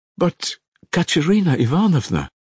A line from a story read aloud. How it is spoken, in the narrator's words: exclaimed Alyosha sorrowfully